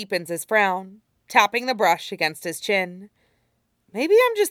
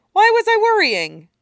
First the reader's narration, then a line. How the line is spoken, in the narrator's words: Usopp laughs as he lies